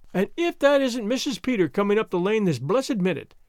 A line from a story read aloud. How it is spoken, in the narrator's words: exclaimed Mrs